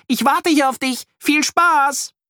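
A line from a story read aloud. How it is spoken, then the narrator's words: Calling out. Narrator (German): ruft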